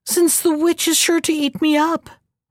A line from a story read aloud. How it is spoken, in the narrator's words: cried the young woman